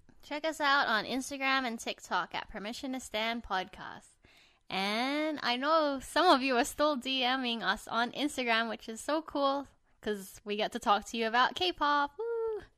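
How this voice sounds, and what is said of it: Bright customer-service head voice. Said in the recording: “the way you say it is so like, ooh ... That's my customer service voice ... I use my head voice when I'm trying to be nice.”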